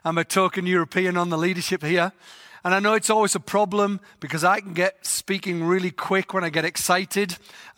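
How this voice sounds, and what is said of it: English accent. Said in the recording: “I've got a funny voice because I'm from England.”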